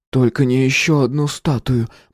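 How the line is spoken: Groaning. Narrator (Russian): простонал Эдди

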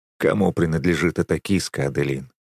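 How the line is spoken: Gloomy question. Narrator (Russian): мрачно спрашиваю

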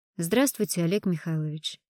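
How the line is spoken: Plain. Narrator (Russian): сказал ему Суворин

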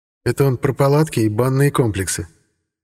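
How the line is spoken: Gentle, as to a child. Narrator (Russian): ласково, как для маленького ребенка, пояснил Сергей

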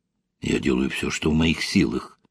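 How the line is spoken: Whispered reply. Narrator (Russian): также шепотом ответил Вадим Арсеньевич

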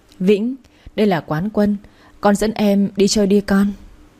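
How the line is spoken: Smiling, warm. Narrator (Vietnamese): Anh mỉm cười

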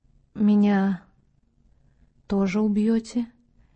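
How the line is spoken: Quiet spellbound question. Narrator (Russian): тихо спросила она, зачарованно

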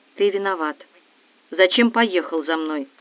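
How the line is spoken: Quiet. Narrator (Russian): Наташа тихо сказала

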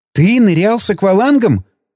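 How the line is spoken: Exclaimed. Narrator (Russian): воскликнула она

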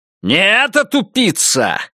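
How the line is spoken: Barking snap. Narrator (Russian): рявкнул он

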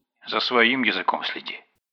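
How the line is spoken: Grumbling. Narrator (Russian): проворчал инспектор

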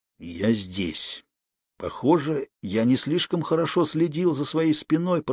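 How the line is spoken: Hoarse rasp. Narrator (Russian): прохрипел он

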